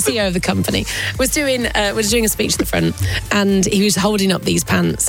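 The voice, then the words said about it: Croaky, hoarse voice. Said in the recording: “my voice is croaky from all the heckling”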